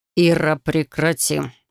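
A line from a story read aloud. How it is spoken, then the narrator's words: Cold and stern. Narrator (Russian): Его слова прозвучали холодно и строго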